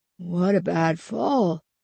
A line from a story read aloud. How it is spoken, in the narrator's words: Stanley said softly